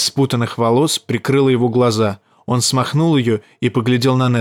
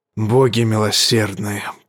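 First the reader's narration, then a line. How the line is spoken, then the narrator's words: Anguished muttering. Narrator (Russian): пробормотал король в муке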